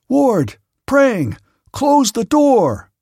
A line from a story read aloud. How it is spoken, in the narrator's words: I shouted